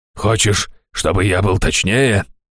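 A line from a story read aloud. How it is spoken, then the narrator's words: Barking, muffled behind door. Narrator (Russian): рявкнул Раштау из-за двери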